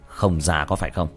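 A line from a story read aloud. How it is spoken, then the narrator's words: Cold. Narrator (Vietnamese): Tiểu Thất lạnh lùng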